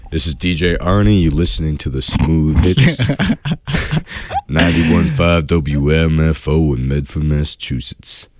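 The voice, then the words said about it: Radio DJ voice. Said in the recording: “That's my radio voice.”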